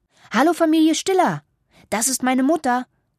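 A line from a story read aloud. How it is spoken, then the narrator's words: Calling out. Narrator (German): ruft Anna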